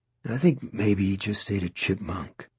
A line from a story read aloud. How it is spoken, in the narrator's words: Robinson said feebly